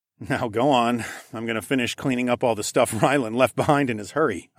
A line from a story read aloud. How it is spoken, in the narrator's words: chuckled